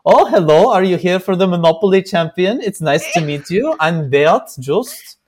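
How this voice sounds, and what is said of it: Imitates another person's accented voice. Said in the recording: “my impersonation of him ... he had the accent.”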